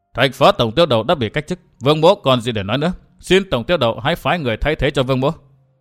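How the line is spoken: Low, angry voice. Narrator (Vietnamese): càng nghĩ càng tức giận, trầm giọng nói

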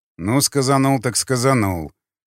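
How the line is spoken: Snorting. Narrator (Russian): хмыкнул варяг

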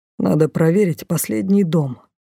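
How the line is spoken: Grumble. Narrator (Russian): буркнул Дефос

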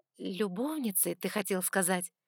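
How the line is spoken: Gentle correction. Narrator (Russian): Мягко поправила я

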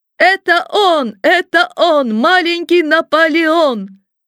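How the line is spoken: Children shouting in chorus. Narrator (Russian): все дети вдруг хором закричали

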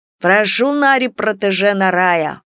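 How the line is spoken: Snide, mocking. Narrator (Russian): ехидно проговорил какой-то эльф

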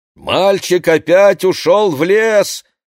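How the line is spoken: Shout. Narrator (Russian): кричал Моше Рабинович

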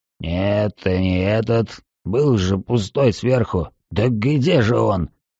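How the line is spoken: Muttering to himself. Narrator (Russian): Он бормотал себе под нос

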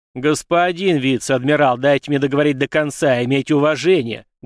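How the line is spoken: Stern commanding bark. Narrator (Russian): гаркнул самым суровым начальственным тоном, который смог воспроизвести

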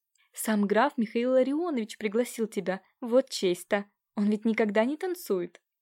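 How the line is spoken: Excited whisper into ear. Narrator (Russian): Нелидова взволнованно на ухо девушки прошептала

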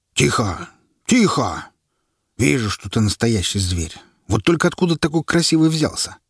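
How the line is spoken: Thoughtful soldier. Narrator (Russian): задумчиво произнес военный

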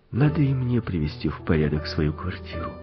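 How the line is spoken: Boy whispering. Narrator (Russian): прошептал мальчик

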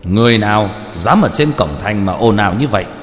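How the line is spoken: Loud shout from afar. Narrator (Vietnamese): tên linh quan, từ phía xa lớn tiếng quát

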